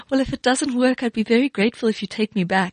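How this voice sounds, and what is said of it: Exaggeratedly sweet voice. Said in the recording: “in my very sweetest voice,”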